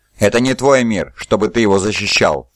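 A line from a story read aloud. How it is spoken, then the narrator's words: Snorting. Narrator (Russian): фыркнул Рус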